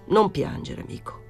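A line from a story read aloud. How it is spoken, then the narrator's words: Murmured. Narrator (Italian): mormorò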